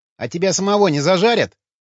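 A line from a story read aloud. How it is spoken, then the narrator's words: Snorting hmph. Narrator (Russian): хмыкнул Вячеслав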